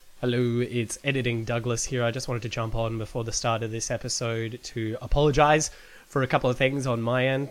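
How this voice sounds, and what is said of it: Nasal, congested sick voice. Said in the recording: “I'm sick. You can still hear it in my voice... I'm still sick... I sound very nasally blocked and terrible”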